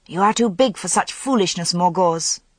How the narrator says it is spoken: said sharply

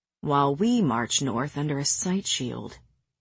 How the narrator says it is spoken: Cassian murmured

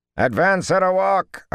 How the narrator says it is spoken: Arganda bellowed

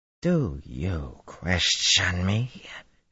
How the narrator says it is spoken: she snarled incredulously

